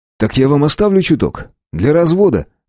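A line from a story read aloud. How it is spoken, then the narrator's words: Amused grunt. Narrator (Russian): хмыкнул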